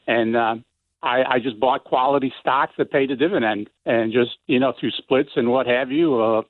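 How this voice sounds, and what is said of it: Central New York accent. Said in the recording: “I detect an accent, and I don't know if it's a Midwestern ... Central New York ... a fascinating nuance of your intonation, which is cool and unique, and your accent we love.”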